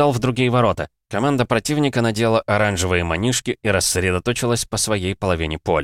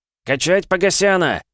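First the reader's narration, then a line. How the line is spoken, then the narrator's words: Yelling. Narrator (Russian): заорал Игнат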